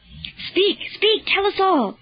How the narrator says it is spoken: cried Honorius

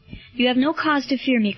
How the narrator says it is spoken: cried Marcellus

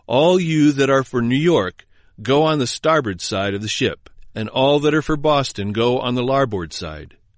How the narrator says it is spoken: Suddenly and unexpectedly, with a stentorian voice cried out

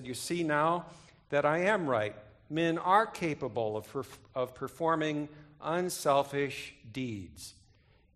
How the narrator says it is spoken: pointed triumphantly, and he said

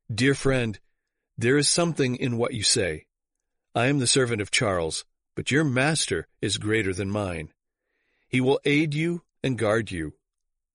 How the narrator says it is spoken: The officer looked earnestly into his face and said

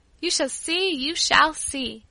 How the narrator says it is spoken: I exclaimed

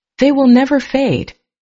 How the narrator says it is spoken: I cried out

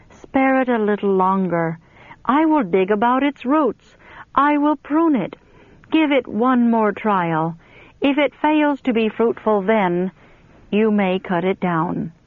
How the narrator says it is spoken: the pleading tones of mercy's sweet voice saying

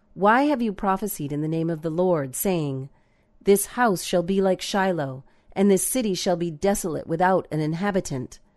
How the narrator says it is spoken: They cried out

